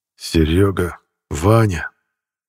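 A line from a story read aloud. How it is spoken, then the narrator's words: Quiet and sad. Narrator (Russian): тихо и грустно начал говорить Усков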